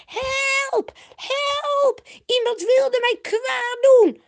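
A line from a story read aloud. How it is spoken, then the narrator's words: Shrieking and calling for help. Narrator (Dutch): begint ze te krijsen en te roepen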